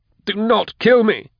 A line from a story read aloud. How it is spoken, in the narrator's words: cried